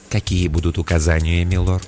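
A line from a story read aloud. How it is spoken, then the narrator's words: Quiet ingratiating inquiry. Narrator (Russian): тихий голос вкрадчиво осведомился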